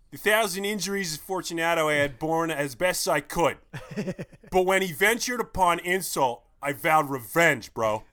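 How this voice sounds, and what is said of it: Put-on Philadelphia accent. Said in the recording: “in my best Philly accent ... That was pretty good. That was like a great like Philly meshed with like a Delco.”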